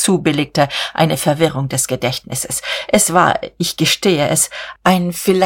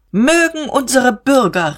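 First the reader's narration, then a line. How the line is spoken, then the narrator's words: Calling out. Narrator (German): rief Diederich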